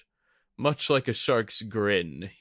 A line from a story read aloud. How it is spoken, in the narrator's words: he chuckled